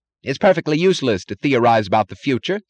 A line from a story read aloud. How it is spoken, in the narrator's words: snapped Taggart